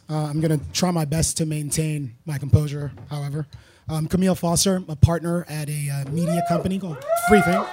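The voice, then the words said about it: Hoarse, strained voice. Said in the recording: “I am sort of losing my voice.”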